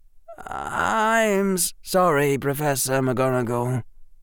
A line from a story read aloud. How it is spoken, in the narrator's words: Harry said in a small voice